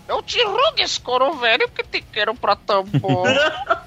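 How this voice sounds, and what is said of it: Imitates a parrot's voice. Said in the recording (Portuguese): “imita aí, como é que ele fez o pedido? ... Essa imitação é a melhor que tem.”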